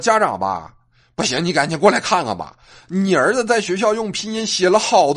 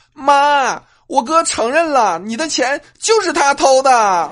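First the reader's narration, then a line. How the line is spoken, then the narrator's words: Shouting. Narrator (Chinese): 我妹妹冲屋里喊了一句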